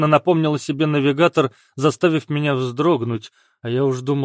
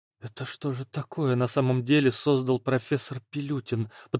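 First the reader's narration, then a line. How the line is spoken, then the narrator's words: Shocked whisper. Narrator (Russian): потрясенно прошептала Оля, осознав смысл новых строк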